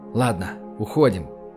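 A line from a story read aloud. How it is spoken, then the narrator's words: Whispered. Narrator (Russian): прошептал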